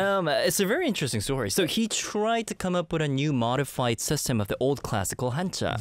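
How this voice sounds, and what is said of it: Usual voice. Nothing is said of it.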